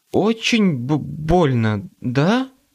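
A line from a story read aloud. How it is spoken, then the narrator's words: Stammering. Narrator (Russian): Она даже заикаться начала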